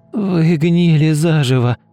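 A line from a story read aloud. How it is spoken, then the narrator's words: Hoarse voice. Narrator (Russian): хрипло сказала Ульяна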